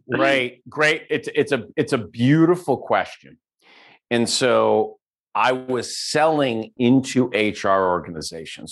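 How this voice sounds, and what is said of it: Italian New York accent. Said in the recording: “I can hear this in his New York accent, Italian New York”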